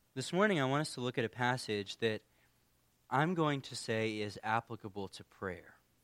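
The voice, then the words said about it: Hoarse, fading voice. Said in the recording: “I've kind of been losing my voice. ... I've been having a pretty rough week of allergies. ... if I start losing my voice.”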